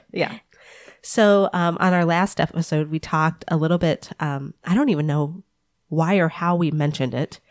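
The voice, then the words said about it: Voice weakened by illness. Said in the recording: “I don't know if you can hear it in my voice, but sickness has ruled my body for about a week now. Strep and allergies ... last week I had very little voice, and this week I sound like this”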